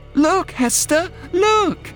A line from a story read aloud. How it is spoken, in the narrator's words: cried